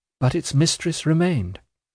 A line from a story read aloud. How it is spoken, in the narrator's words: I timidly reminded him